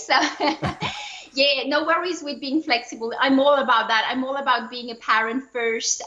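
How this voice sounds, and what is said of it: Non-native English accent. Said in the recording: “everyone has noticed my accent right away”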